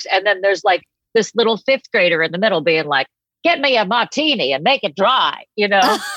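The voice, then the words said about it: Heavy Boston accent. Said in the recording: “I don't know why I sound like this ... this exact voice, this exact um, accent since I was a kid. And everybody in my family has a heavy Boston accent.”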